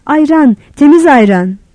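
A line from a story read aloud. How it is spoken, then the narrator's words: Shouting. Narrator (Turkish): diye bağırdı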